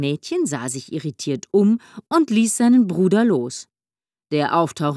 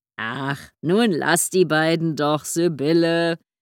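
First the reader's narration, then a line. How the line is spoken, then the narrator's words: Cozy rumbling voice. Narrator (German): mischte sich Gunnar Witte mit gemütlicher Brummstimme ein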